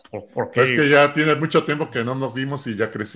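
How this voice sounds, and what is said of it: Loud, deep, pompous manly voice. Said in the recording (Spanish): “ahorita está hablando así fuerte ... está como con la voz engolada ... voz de hombre”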